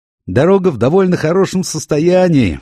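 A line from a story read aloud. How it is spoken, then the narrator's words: Shouting on a bumpy ride. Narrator (Russian): в очередной раз крикнул он, когда нас так подкинуло на сиденьях, что мы чуть не стукнулись о потолок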